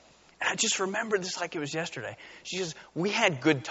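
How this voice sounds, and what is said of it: Usual voice. Nothing is said of it.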